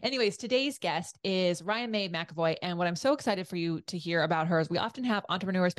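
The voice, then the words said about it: Hoarse, fading voice. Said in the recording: “I'm now losing my voice because I'm picking up on our guest today's Vegas voice ... that casino just takes your voice away”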